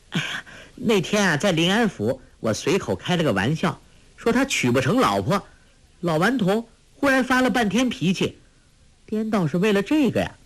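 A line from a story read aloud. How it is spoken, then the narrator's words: Bursting into laughter. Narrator (Chinese): 忽然扑哧一声笑了出来，说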